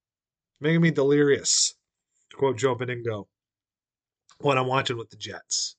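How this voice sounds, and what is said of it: Usual voice. Nothing is said of it.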